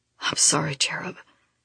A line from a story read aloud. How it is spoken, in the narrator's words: whispers, his voice husky